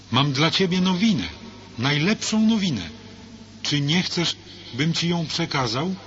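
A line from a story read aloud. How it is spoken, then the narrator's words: Called out. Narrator (Polish): zawołał gubernator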